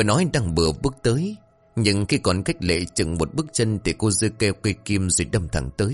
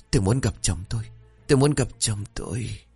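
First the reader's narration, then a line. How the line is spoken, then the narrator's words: Fading repeated whisper. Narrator (Vietnamese): Lệ từ từ lịm đi, nhưng miệng của cô vẫn liên tục thì thào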